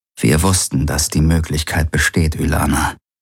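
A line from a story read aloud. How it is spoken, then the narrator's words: Gentle and sad. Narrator (German): sagte er sanft und traurig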